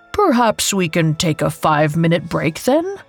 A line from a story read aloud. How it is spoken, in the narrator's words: Anant scoffed